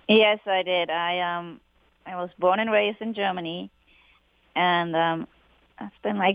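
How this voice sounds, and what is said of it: German accent. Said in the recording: “he's from Germany ... you're not from around these parts. You have an accent. I'm assuming you grew up in Germany.”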